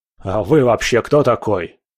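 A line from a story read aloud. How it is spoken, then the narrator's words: Irritated question. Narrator (Russian): раздраженно спросил клиент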